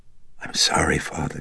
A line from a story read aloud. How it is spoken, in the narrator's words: she huskily whispered